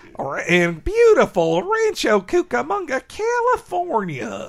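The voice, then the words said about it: California gold character voice. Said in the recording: “I love doing the California gold voice.”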